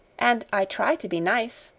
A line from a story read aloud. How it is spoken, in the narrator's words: admitted Sara cheerfully